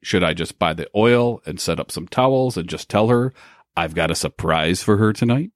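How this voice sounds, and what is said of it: Disguised anonymous character voice. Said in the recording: “I like your anonymous voice”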